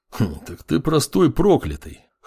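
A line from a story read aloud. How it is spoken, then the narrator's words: Snorting grunt. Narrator (Russian): хмыкнул бывший следователь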